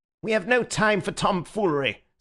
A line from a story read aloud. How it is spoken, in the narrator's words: said the Secretary, breaking in savagely